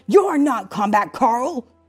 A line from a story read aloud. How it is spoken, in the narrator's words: shouted